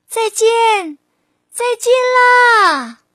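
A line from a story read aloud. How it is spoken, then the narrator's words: Loud shout. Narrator (Chinese): 蝴蝶大声喊着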